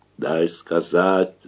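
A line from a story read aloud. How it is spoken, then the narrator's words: Angry growl. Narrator (Russian): зарычал Макар, вспыхнув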